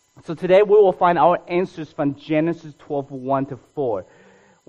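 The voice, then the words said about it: Speaks with a foreign accent. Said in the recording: “because my accent”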